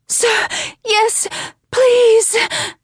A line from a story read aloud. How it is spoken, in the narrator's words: She cries out